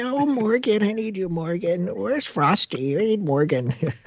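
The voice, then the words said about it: Coddling voice imitating sports fans. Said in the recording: “do an impression now of the Frost fans? ... It's a voice of coddling.”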